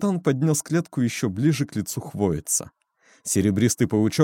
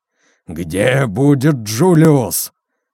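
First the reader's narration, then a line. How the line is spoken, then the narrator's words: Roaring question. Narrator (Russian): взревел капитан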